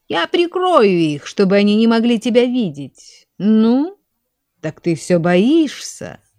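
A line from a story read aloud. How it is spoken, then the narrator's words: Mocking laugh. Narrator (Russian): извительно засмеялся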